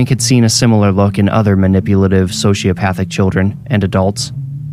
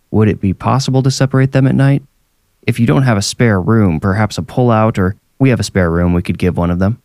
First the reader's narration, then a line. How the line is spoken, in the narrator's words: Joshua said